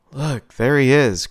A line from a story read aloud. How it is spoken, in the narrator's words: Crystal groaned